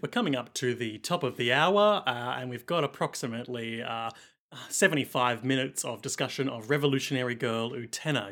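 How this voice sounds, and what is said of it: Australian alternative radio DJ voice. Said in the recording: “this is my Triple J DJ impression. ... Triple J, Australia's, publicly funded ... alternative ... Rock radio”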